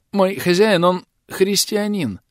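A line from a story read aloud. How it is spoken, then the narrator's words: Uncertain young merchant. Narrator (Russian): неуверенно сказал купчик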